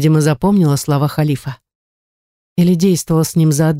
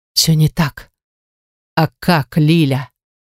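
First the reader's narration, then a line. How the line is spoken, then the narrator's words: Man's growl. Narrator (Russian): рыкнул мужчина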